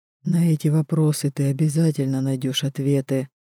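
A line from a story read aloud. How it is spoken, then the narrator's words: Quiet. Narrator (Russian): тихо говорит Гару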